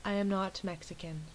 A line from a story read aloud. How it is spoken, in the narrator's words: Taylor said in a soft, clear voice